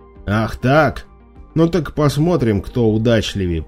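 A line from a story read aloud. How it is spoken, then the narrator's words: Angry growl. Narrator (Russian): прорычал Кудим, почувствовав в ответе измену брата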